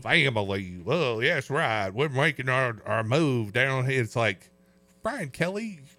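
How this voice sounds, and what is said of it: Brian Kelly with fake Southern accent. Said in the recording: “Brian Kelly all of a sudden having a Southern accent”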